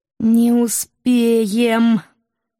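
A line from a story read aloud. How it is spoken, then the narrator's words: Nervous whine. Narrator (Russian): Нервно заскулила волчица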